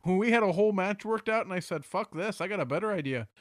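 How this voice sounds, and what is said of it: Poor Minnesota accent, sounds Irish. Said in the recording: “we're just doing an Irish accent for Brock Lesnar ... I'm doing a shitty Minnesota accent ... A shitty Minnesota accent aka the Irish accent”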